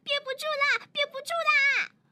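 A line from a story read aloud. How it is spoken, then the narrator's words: Urgent shout. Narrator (Chinese): 明一都会像一阵风一样冲进卫生间，嘴里大喊道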